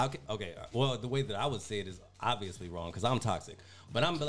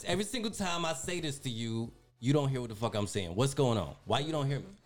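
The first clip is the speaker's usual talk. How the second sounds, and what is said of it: Raised, loud angry voice. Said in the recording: “of course I'm gonna raise my voice. ... can you lower the volume? ... you raise your voice”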